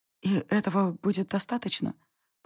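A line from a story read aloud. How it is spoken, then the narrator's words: Disbelieving whisper. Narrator (Russian): прошептала я, неверяще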